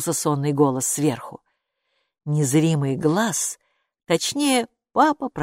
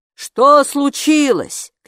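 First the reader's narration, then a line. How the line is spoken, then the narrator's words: Father shouting. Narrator (Russian): крикнул папа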